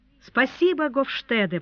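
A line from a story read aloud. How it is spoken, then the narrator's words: Old man exclaiming. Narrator (Russian): воскликнул старый Буденброк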